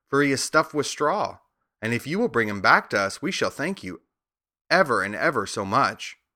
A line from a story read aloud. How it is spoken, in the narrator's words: said Dorothy eagerly